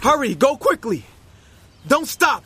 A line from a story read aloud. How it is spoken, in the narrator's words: he shouted